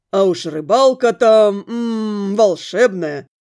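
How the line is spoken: Smirking, smiling. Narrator (Russian): хмыкнув, улыбнулась

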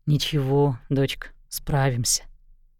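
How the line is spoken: Quiet. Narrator (Russian): Джозеф Паларина тихо сказал

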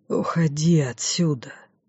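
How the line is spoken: Conflicted whisper. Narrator (Russian): прошептал ей, метаясь между собственными противоречиями

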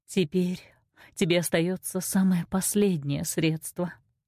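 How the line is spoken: Sad. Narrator (Russian): сказала грустно

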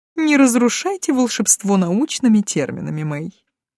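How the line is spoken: Laughing. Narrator (Russian): засмеялся Ирвин

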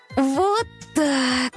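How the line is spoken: Breathless exhale after effort. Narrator (Russian): Выдохнула она, с трудом затолкав тяжеленный том на полку

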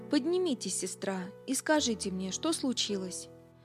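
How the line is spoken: Said gently. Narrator (Russian): Билл нежно положил ей руку на плечо и сказал

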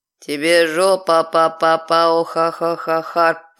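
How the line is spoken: Growling. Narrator (Russian): прорычал Тарк

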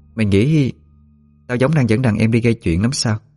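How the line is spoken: Soft but threatening. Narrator (Vietnamese): cất giọng nhẹ nhàng nhưng đầy uy hiếp

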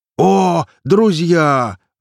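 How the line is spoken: Joyful yell. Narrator (Russian): радостно завопил кузнец, увидев нас

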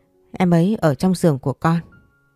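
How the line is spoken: Crying, trembling answer. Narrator (Vietnamese): vừa khóc vừa run run trả lời

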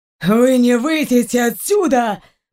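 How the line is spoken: Hoarse wheeze. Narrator (Russian): просипел Раун

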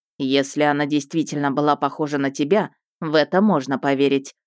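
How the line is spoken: Wry snort. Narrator (Russian): хмыкнул Хантхоффер

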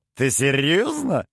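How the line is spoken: Giggling. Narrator (Russian): хихикнул Шо

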